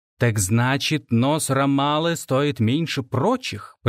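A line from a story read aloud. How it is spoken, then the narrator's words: Hissing. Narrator (Russian): прошипел он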